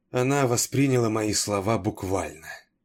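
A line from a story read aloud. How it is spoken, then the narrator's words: Astonished breathy exhale. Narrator (Russian): изумленно выдохнула Гервейн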